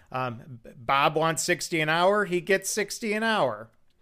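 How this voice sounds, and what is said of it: Put-on Michigan accent. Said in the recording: “kind of a Michigan accent”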